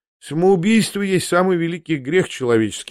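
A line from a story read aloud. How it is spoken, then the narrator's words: Sighing reply. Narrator (Russian): ответил он, вздохнув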